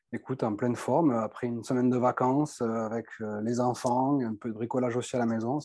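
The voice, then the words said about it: Southern French accent. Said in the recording (French): “ton accent me donne envie d'aller dans le sud”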